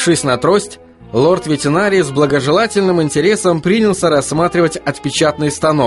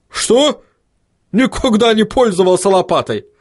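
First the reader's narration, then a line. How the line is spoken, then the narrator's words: Angry bark, gnome. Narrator (Russian): рявкнул рассерженный гном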